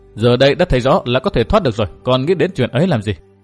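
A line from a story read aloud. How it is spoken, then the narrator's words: Smiling. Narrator (Vietnamese): Nguyên Bình mỉm cười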